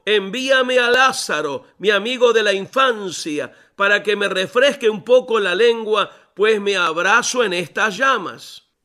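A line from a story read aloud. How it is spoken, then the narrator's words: Shouting from below. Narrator (Spanish): gritó desde abajo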